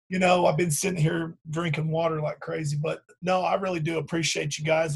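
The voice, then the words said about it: Raspy, strained voice. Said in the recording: “My voice is getting raspy”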